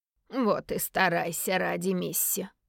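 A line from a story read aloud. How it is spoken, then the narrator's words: Through gritted teeth. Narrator (Russian): процедил отец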